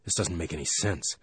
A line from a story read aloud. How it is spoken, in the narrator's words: Michaels whispered to Tony